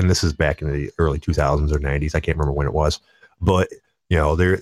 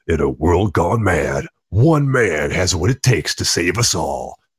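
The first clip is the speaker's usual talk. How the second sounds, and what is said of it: Dramatic movie trailer announcer voice. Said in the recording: “the classic movie guy trailer voice”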